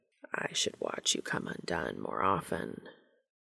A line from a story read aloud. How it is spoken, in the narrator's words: Cass murmured, his voice rougher than ever